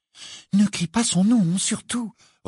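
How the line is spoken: Urgent warning. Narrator (French): recommanda Hermione d'un ton pressant

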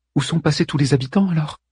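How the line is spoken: Small timid voice. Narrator (French): interrogea Aimé d'une petite voix

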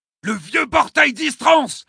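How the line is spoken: Exclaimed. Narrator (French): s'écrie de Soya

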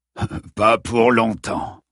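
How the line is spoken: Sneering burly man. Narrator (French): ricana son athlétique et crasseux partenaire

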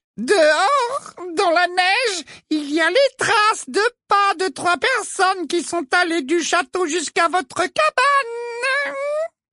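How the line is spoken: Sugary, honeyed voice. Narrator (French): fit remarquer Ombrage d'une voix doucereuse

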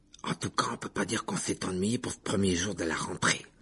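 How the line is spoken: Gloomy mutter. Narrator (French): marmonna Ron d'un air sombre

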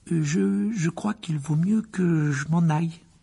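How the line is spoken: Stammering. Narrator (French): balbutia-t-il

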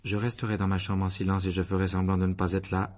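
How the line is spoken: Monotone answer. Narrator (French): répondit Harry d'une voix monocorde

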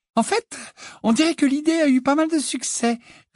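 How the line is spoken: Joyful reply. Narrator (French): répondit-elle d'un ton joyeux

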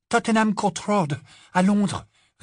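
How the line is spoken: Breathless answer. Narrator (French): répondit Hermione, d'une voix essoufflée

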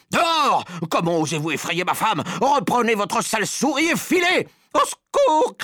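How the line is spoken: Shouting. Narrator (French): criait Madame Jenkins

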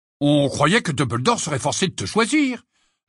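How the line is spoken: Indignant tone. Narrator (French): ajouta George d'un ton indigné

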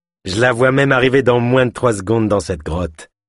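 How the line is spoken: Sneering laugh. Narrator (French): ajouta avec un ricanement

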